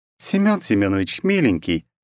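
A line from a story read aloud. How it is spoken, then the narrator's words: Laughing, empress. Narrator (Russian): рассмеялась императрица Елизавета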